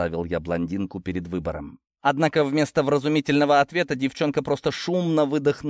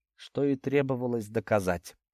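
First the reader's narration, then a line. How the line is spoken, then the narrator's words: Smug snort. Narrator (Russian): хмыкнул я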